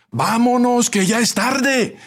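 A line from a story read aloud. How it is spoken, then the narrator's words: Distant shout from behind. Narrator (Spanish): gritó alguien desde los últimos asientos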